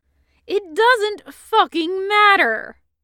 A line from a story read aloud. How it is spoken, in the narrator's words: Hood said furiously